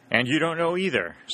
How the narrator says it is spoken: said Happy Tom

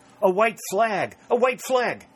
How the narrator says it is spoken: cried Dick in excitement

